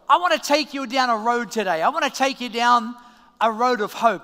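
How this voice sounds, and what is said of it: Australian accent. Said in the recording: “everyone was still getting used to my accent ... phrases that maybe you would say in Australia”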